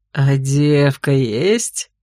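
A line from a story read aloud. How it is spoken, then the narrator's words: Fiend's caustic chuckle. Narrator (Russian): Едко хохотнул изувер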